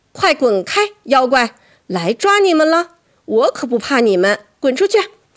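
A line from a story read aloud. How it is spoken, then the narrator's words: Shout. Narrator (Chinese): 我大喊道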